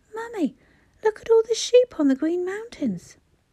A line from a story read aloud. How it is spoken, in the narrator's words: Suddenly, making her jump, cried